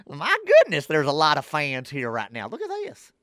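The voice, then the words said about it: Imitates another person's voice. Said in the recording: “That was a dead-on Arch Manning impersonation.”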